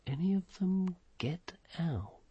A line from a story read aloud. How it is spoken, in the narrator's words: under his breath he said